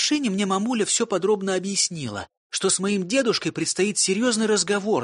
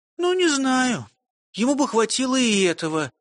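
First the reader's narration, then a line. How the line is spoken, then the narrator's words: Sighing. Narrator (Russian): вздохнула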